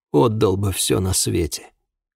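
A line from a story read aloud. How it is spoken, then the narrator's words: Hoarse speech. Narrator (Russian): хрипло сказал Тергут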